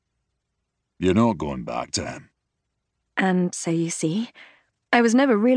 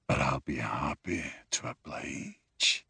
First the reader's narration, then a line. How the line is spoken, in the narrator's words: he whispers